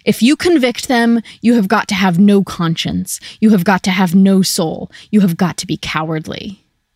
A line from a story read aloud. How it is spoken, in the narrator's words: He roared